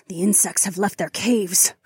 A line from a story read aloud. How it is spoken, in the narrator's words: Phyllis snarled